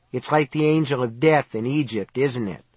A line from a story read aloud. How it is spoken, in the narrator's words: Cynthia said in a curiously flat voice